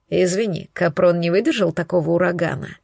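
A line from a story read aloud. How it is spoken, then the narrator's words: Smirking snort. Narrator (Russian): хмыкнул он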